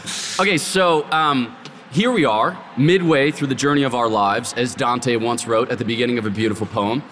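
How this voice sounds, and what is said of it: Strained, fading voice. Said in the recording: “reconstitute my voice like something listen-to-itable ... I'm on my way to losing my voice”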